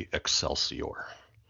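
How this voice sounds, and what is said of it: Imitates another person's voice. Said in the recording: “you can probably do a better impression than I can ... Not bad. Was, but, not bad.”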